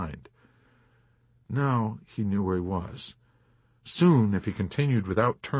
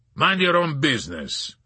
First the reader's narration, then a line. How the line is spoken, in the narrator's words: the man barked gruffly